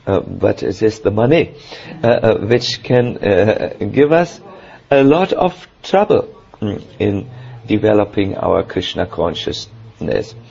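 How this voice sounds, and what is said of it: German accent. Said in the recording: “I will pronounce it with a German accent, you please forgive me.”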